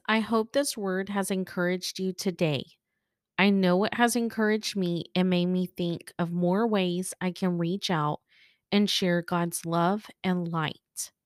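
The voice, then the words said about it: Slightly rough, recovering voice. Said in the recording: “bearing with me and my voice. I was sick over the holidays ... my voice sounded like a frog ... I feel like my voice is still kind of trying to get back to normal”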